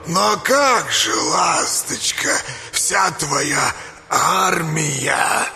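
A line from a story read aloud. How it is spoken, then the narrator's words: Toothless old mumble. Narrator (Russian): зашамкала древняя ведьма Клавдия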